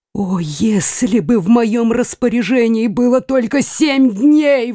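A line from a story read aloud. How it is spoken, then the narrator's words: Exclamation. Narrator (Russian): воскликнул Генрих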